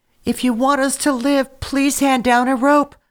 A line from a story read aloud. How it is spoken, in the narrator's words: pleaded the children as they looked up towards the heavens